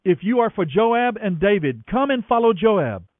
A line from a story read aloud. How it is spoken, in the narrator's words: One of Joab's young officers shouted to Amasa's troops